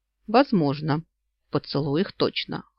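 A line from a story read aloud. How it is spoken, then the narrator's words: Snorted. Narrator (Russian): хмыкнул Йен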